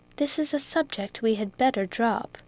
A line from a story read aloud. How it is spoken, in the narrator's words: Rose quietly observed